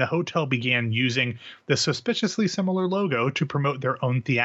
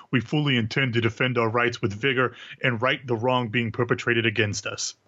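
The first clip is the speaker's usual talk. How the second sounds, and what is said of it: Imitates another person's voice. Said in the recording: “Did you just do a voice? ... I did a voice.”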